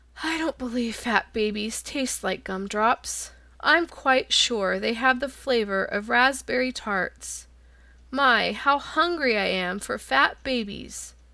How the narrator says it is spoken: The lion grunted disdainfully

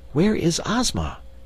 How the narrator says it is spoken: inquired Dorothy anxiously

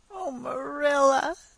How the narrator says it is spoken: sobbed, without looking up

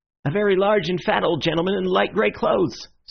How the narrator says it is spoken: said the keeper eagerly

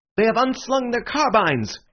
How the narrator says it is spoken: cried Bull, with excitement

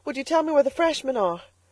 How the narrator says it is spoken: she panted

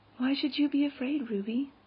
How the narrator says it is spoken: asked Anne quietly

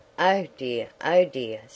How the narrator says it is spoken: sighed Wendy

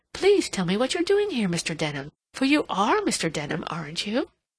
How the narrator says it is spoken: she exclaimed

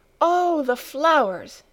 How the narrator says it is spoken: exclaimed Clara

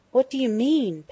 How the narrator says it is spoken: Penny gasped, but she was already calmer

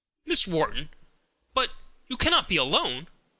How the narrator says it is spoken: exclaimed with some uneasiness

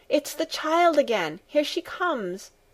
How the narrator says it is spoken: the grandmother called out from her corner

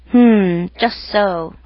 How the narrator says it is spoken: grunted the uncle

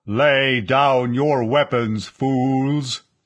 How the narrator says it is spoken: the amplified voice boomed at them

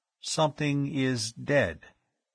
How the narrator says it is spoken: he said slowly

